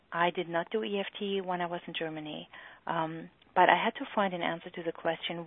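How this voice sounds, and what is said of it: German accent. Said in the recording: “You can hopefully hear by my accent that I am German.”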